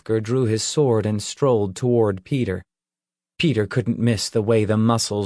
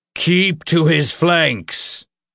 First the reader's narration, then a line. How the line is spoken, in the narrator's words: Ulfgar shouted in a deep, thunderous voice